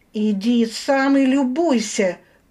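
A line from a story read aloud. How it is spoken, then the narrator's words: Near yell. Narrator (Russian): почти заорала я на него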